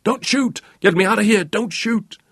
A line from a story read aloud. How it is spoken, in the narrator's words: in a rising hysterical scream